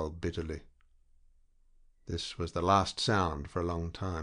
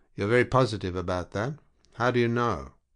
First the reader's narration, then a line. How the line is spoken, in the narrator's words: the lieutenant said, in an indifferent tone